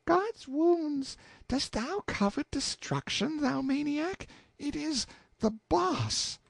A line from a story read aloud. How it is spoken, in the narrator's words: she piped up with the tranquillest confidence and said